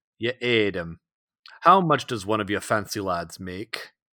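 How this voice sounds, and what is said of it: Thick rough regional accent. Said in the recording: “the man's thick accent”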